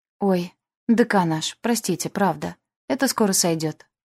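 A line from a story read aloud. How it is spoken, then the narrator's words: Frightened babbling. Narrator (Russian): залепетала перепуганная магистр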